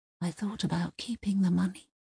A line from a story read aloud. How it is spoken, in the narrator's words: Uwe whispered at long last